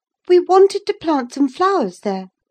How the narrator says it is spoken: she cried

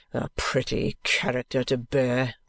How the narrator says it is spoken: the trooper growls with a hasty oath

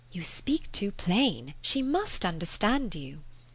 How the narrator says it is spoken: Emma took the opportunity of whispering

